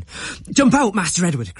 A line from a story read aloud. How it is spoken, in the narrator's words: cried